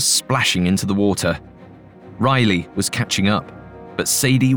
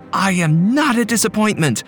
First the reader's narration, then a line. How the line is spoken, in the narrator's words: Gia, she heard her scream